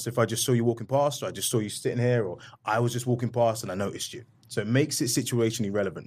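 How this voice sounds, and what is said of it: British accent. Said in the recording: “you have a British accent ... I'm sure you play up that accent.”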